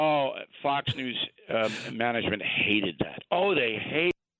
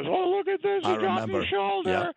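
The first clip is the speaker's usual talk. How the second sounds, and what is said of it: Imitates a woman's voice. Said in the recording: “you do a very good impression of that lady”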